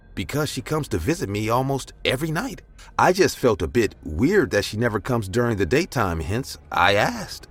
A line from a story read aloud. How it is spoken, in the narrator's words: I replied in a confused voice